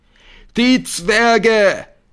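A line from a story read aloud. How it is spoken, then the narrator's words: Crowd roaring. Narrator (German): brüllt die Menge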